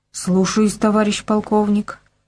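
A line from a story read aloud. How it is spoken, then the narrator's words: Muttering giant. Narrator (Russian): пробормотал гигант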